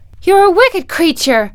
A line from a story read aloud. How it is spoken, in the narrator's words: cried Dorothy